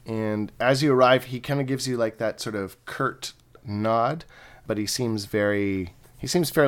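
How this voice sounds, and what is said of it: Usual voice. Nothing is said of it.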